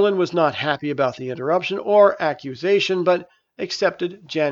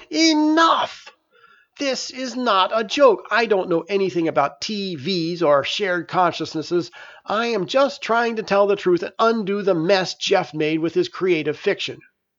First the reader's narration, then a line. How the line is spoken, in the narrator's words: Merlin yelled